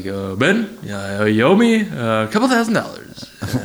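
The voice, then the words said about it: Obama impression. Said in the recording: “What a great Obama impression.”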